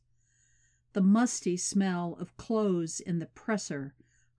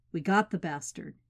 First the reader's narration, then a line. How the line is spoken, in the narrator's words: says